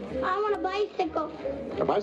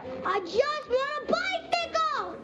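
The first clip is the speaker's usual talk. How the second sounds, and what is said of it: Yelling, shouted demand. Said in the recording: “Why are you yelling at me?”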